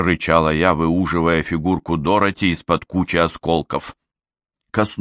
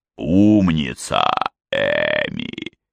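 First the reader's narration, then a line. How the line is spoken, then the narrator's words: King's purring. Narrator (Russian): промурлыкал король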